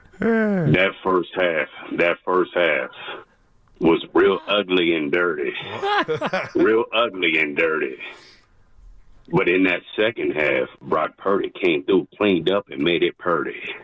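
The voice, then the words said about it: Put-on serious voice. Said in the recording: “I'm going to get into my serious voice.”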